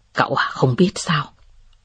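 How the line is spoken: Soft laugh. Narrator (Vietnamese): Tưởng Ngọc Hàm cười khẽ và nói

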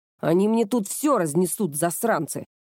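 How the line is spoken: Grumbling. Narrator (Russian): Проворчала Кёко

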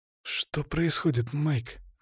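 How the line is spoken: Whispered question. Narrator (Russian): шепотом спросил Кевин

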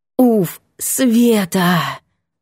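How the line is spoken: Exhaling. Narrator (Russian): выдохнула

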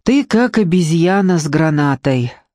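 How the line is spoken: Sad. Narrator (Russian): сказал Зиганшин грустно

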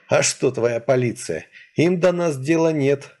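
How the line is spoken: Sad grimacing tone. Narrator (Russian): грустно скривился Леший

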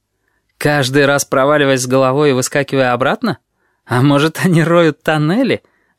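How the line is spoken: Laughing. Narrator (Russian): рассмеялся неизвестный

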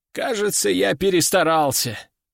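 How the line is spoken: Weary sigh. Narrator (Russian): устало вздохнул мессир

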